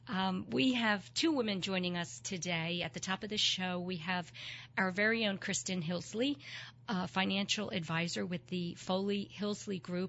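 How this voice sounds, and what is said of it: Hoarse, froggy voice from a cold. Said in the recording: “I have a little bit of a cold, ... my froggy voice”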